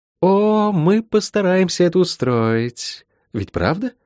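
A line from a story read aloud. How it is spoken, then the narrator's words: Smiling. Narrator (Russian): Улыбнулась Лайон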